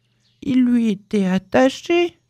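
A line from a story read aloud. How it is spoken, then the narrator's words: Sad. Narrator (French): dit Winnie l'ourson tristement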